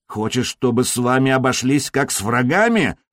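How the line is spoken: Growling in Slovene. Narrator (Russian): рыкнул по-словенски

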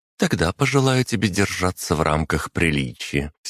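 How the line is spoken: Deliberately calm reply. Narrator (Russian): все так же нарочито спокойно ответила девушка

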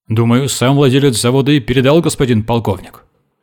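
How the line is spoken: Barking. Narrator (Russian): гаркнул ротмистр

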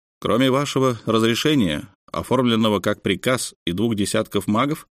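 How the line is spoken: Plain. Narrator (Russian): спросил Алексей

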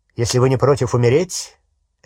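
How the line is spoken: Sharp question. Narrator (Russian): резко спросил Снег

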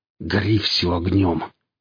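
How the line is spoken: Through gritted teeth. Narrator (Russian): процедил сталкер

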